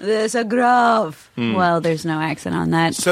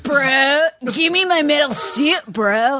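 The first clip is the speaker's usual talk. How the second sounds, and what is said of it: Put-on Southern California accent. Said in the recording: “I gave him like a SoCal accent.”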